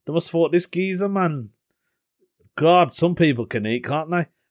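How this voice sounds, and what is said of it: Birmingham (Brummie) accent. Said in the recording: “they knew I wasn't from the area because of my accent, because I'm a Brummie”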